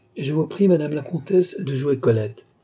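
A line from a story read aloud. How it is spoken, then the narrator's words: Exclaimed. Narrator (French): s'écria le comte d'Artois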